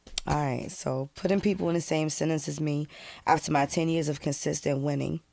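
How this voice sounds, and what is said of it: Weak, sick-sounding voice. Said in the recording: “I'm sick ... My voice is halfway here.”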